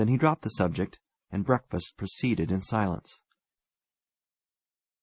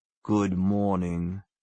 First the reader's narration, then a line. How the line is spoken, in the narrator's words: said the colonel grimly